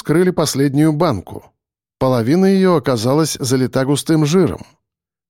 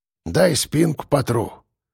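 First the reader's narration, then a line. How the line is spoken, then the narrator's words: Muttering. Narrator (Russian): пробормотал Ефим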